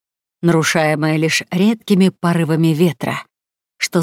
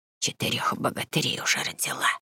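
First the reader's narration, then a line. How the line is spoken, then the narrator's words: Old woman whispering. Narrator (Russian): прошептала старая Грета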